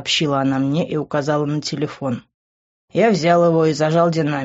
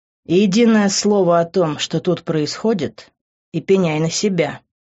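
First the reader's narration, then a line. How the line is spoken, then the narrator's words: Through clenched teeth. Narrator (Russian): процедил я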